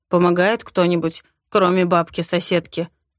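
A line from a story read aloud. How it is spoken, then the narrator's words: Mocking question. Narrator (Russian): спрашивает насмешливо, почти как раньше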